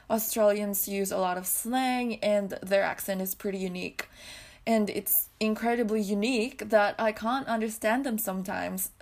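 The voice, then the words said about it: Mixed accent, partly American. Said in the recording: “people said that I have an American accent ... accent has changed a lot. I feel like I still have a mix of different accents”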